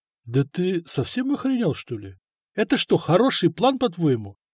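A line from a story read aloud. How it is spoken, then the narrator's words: Bewildered. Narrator (Russian): растерянно сказал Сама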